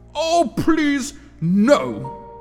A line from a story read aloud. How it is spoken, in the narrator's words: exclaimed Zack, as he was banned